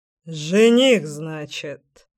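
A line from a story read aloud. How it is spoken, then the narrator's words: Scoffing grunt. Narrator (Russian): хмыкнул он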